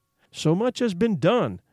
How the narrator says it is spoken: exclaimed the soul of Frankenstein

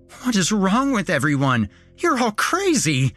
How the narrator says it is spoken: Nick was screaming

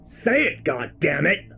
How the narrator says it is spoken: I roar

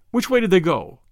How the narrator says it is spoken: snapped Valentine

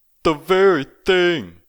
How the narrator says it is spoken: cried Peter, kicking up his heels

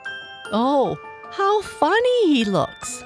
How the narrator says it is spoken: laughed the Calico Clown

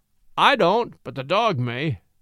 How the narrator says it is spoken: said the other, grimly

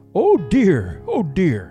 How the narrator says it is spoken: exclaimed Papa Panov

